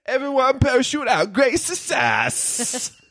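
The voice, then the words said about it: Bad Borat impression. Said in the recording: “worst Borat impression I've ever heard ... That was really bad.”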